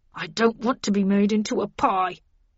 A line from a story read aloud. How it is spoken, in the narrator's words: moaned Linton